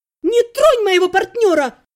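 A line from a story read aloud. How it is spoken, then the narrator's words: Shouting. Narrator (Russian): закричала я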